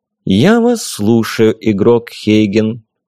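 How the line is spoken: Even, routine voice. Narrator (Russian): привычным ровным голосом повторил администратор

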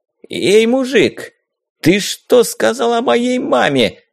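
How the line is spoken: Loud shrieking. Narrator (Russian): завизжал негодяй довольно громко

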